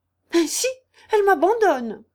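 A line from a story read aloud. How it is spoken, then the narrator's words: Aunt squawking, feigned despair. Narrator (French): s'écria la tante, jurant, piaillant, déclamant et feignant de se désespérer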